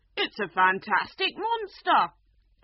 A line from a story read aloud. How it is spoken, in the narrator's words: the unicorn cried